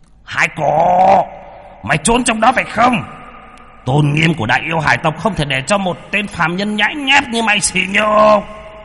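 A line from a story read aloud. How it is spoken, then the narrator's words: Roar. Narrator (Vietnamese): Hải Chu gầm lên một tiếng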